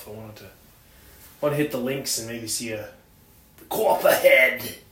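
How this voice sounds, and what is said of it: Joking put-on regional accent. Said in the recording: “That's how they talk in Arizona. You wouldn't know it, but that's how they talk. ... it's pretty much the Scottsdale accent.”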